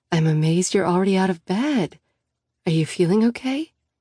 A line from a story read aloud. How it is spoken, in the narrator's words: I ask gently